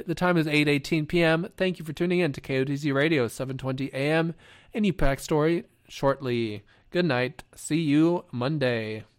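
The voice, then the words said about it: Fried, worn-out voice. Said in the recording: “My voice is fried.”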